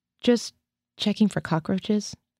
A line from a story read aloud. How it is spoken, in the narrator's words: I said weakly